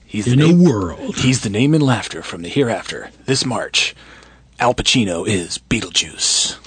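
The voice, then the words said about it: Movie trailer announcer voice. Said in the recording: “do my trailer guy voice”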